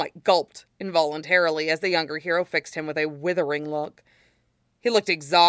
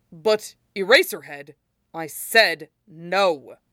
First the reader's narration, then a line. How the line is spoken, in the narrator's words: Aizawa snapped